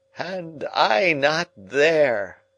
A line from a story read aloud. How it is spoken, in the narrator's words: he groaned, and turned dismally